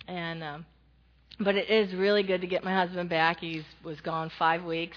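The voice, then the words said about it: Voice sounds like a head cold. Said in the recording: “I have the cold that's going around, so if I cough or you hear it in my voice”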